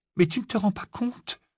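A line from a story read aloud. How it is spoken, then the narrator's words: Murmuring. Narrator (French): murmura Hermione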